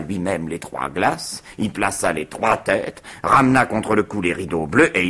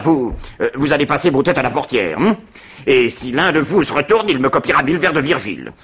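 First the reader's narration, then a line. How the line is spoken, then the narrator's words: Shouted. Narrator (French): il cria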